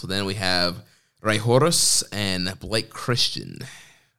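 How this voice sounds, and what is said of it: Names spoken in a put-on accent. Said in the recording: “I liked your accent there. It's very good.”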